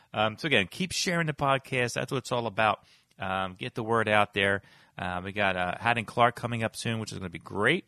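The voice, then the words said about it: Strained, worn-out voice. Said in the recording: “I'm losing my voice a little bit ... I was talking 2 hours last night ... my voice is about done”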